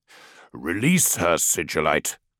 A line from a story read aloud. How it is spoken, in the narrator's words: growled Dawn